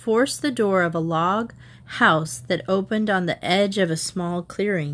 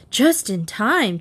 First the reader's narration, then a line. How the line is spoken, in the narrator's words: Trixie panted, exhausted